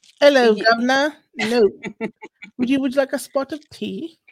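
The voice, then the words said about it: Put-on English accent. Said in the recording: “I love the English accent.”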